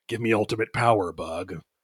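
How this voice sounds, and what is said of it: Imitates the character Guts' voice. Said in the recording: “my Guts impression”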